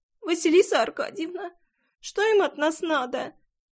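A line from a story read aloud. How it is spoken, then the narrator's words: Sobbing. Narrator (Russian): всхлипнула Леночка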